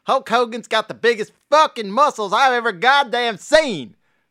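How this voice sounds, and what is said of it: Put-on exaggerated Southern accent. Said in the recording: “in the Southern meth accent”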